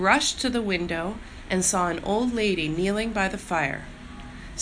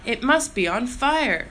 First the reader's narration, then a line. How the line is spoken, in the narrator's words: cried